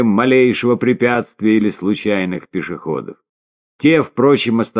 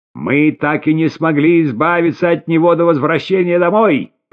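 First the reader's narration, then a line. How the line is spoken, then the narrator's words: Shouting. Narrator (Russian): прокричала она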